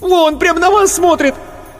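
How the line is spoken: Shrieking yell. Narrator (Russian): Марина Ходосевич опять взвизгнула, завопила

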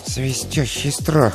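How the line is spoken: Muttered. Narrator (Russian): пробормотал он

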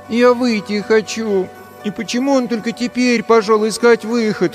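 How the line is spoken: Whimpering. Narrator (Russian): хныкала Мируэт

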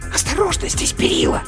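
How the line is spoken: Hissing doll. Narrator (Russian): прошипела матрешка

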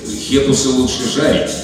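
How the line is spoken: Plain. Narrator (Russian): сказал Роберт

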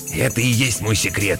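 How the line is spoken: Hoarse whisper. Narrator (Russian): хрипло зашептал Зиги

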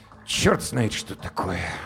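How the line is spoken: Muttered. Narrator (Russian): буркнул он

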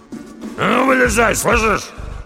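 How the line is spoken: Growl. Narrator (Russian): прорычал Доди

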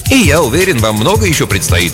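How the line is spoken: Deliberately cheerful. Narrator (Russian): кивнул нарочито бодро

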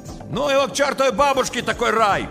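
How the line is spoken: Shout from a car. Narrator (Russian): крикнул из машины Щербак

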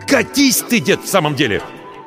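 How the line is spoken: Growl. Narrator (Russian): рыкнул он

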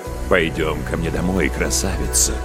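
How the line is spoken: Whispering. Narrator (Russian): шепнул на воображаемое ухо

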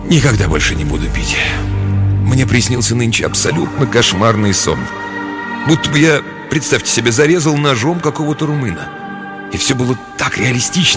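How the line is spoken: Heavy-sighing promise. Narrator (Russian): Тяжело вздохнув и покачав головой, он пообещал

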